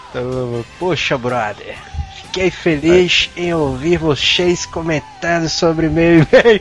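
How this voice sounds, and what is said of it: Put-on drawling Carioca accent. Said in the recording (Portuguese): “ler o, o e-mail dele arrastando aí, né? um sotaquezão e tal. ... Sotaque carioca?”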